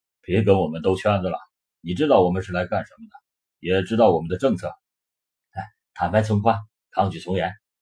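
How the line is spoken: Deep, grave voice. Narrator (Chinese): 沉声道

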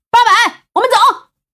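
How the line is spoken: Shouting. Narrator (Chinese): 苗阿飘 对着八百喊道

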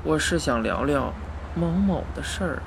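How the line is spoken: Woman sighing, resigned. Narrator (Chinese): 陌生女人见督导死活不去，叹了口气，终于说道

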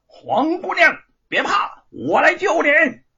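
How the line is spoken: Loud shout. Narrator (Chinese): 姚老大大喊着

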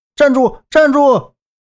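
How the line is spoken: Shouting while chasing. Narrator (Chinese): 周震嘴里还大喊着

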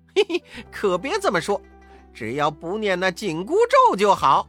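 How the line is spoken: Laughing. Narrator (Chinese): 悟空笑着说

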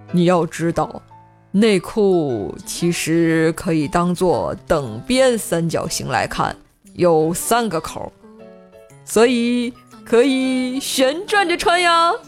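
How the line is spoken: Slow, measured. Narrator (Chinese): 无忌缓缓地开口说道

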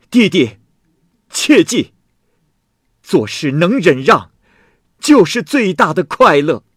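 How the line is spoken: Calling out. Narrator (Chinese): 周生喊了一句

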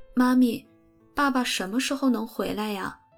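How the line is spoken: Trembling question. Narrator (Chinese): 贝斯问，声音有点颤抖

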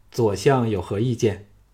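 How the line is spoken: Spirited, roused. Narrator (Chinese): 昌平君振起精神 说

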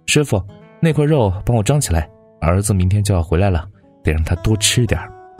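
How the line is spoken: Excited, hearty laughter. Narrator (Chinese): 母亲一激动……她爽朗的笑

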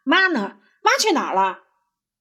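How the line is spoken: Loud shout. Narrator (Chinese): 他大声的喊

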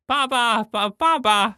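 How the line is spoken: Child shouting loudly. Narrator (Chinese): 有一个小女孩冲我大声的喊

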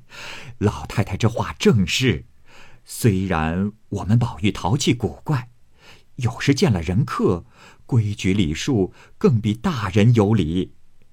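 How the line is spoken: Several voices laughing. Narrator (Chinese): 四人听了都笑说

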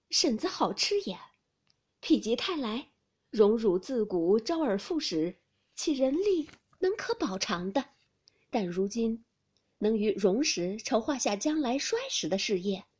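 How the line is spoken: Sneering. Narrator (Chinese): 秦氏冷笑道

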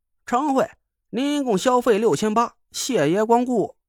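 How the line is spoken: Loud ringing call. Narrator (Chinese): 伙计响亮的喊道

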